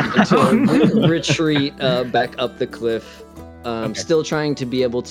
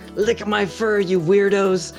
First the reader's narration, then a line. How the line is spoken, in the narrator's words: I will shout